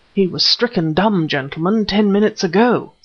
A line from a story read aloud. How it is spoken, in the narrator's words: said Beaton, in a trembling voice